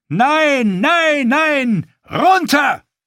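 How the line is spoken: Roaring with fear, anger, pain. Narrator (German): In dem Brüllen, mit dem er antwortete, schwangen Angst und Wut und Schmerz mit

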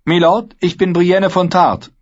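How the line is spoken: Girl calling out. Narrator (German): rief das Mädel

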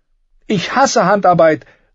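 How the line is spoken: Passionate exclamation. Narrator (German): rief sie voller Leidenschaft

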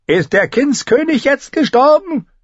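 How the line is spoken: Calling down from above. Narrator (German): rief sie herab

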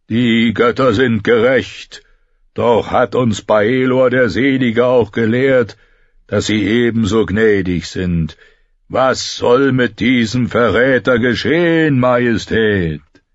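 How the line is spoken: Thousand voices roaring. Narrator (German): 1000 Stimmen brüllten

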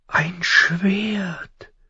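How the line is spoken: Quiet breathless amazement. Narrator (German): staunte sie leise und atemlos

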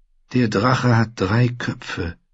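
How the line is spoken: Sigh. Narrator (German): seufzte sie

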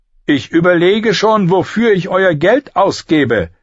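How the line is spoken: Calling down. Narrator (German): rief Littlefinger zu Lord Randy hinab

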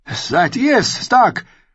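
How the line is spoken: Calling out. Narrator (German): rief Jaime

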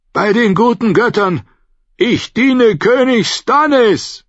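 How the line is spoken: Calling out. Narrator (German): rief er dem Lyseni zu

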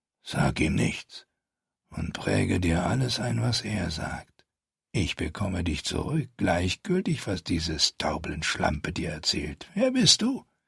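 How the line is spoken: Whispered. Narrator (German): flüsterte

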